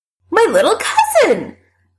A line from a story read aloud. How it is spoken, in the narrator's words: Allison says triumphantly